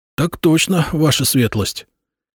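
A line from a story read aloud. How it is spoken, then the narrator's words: Barely audible reply. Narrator (Russian): Едва слышно ответил санитар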